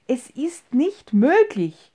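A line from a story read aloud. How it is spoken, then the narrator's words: Exclaimed. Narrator (German): rief er aus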